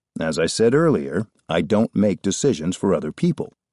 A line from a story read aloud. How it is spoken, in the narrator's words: the manager said firmly